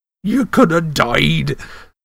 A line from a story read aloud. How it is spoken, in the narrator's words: sobbed Hagrid